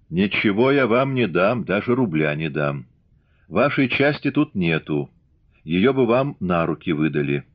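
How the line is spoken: Mockingly calm. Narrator (Russian): Издевательски спокойно она сказала

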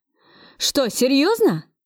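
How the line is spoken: Delighted exclamation over phone. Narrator (Russian): воскликнул в трубку, обрадованный Кравцов

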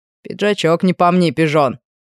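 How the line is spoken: Father's short laugh. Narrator (Russian): хохотнул отец

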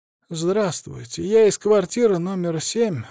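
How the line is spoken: Timid start. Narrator (Russian): робко начала Тамара Павловна

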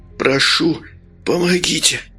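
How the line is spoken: Weak exhausted moan. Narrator (Russian): простонал, вложив в этот стон остаток сил

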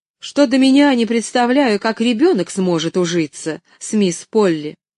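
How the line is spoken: Sharp reply. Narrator (Russian): резко ответила она

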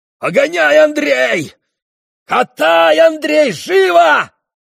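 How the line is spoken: Shouting. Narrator (Russian): закричал он

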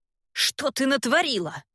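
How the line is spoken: Sharp question. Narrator (Russian): резко спрашивает он

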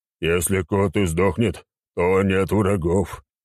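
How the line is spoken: Groaned. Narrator (Russian): простонал чернокожий

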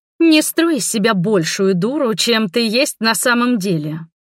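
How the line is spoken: Angry woman's hiss. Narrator (Russian): зло прошипела бывшая подруга

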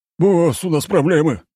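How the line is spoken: Yelling into phone. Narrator (Russian): заорал тот в трубку, так что Семён поморщился

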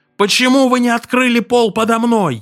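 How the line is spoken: Shouted. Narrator (Russian): крикнул

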